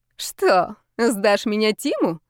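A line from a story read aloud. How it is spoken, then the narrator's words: Loud laughter. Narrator (Russian): расхохоталась Ирина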